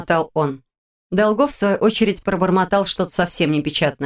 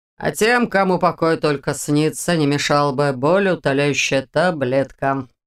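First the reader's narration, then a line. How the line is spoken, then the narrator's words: Grumbled. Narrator (Russian): проворчал Дементьев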